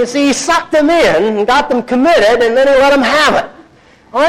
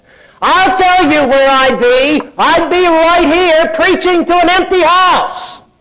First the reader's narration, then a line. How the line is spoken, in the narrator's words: said, as he roared back at them